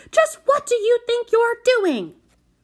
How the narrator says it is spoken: shouted into her face

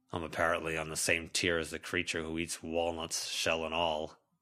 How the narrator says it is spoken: Charles grumbled

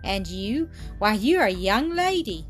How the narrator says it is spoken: exclaimed, in astonishment

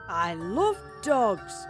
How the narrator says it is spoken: the man exclaimed excitedly

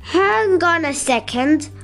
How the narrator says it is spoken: Olaf called out

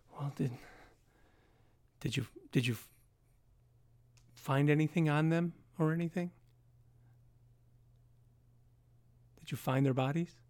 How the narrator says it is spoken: She just kind of gives a sigh of relief

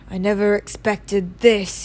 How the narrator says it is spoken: he said in a low, worried voice

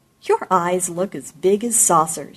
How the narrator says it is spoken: she laughed

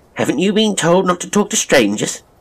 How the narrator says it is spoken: she asked Sylvia, quite sharply, but with calm common sense in her brusqueness

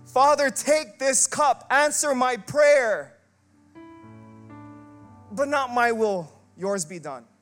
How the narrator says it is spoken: Jesus was begging and pleading all night long

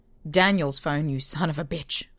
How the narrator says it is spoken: I spat

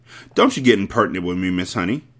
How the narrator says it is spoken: the Trunchbull snapped

